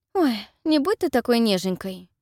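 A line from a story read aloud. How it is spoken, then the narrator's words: False tone. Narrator (Russian): Фальшивым тоном произносит Фелисити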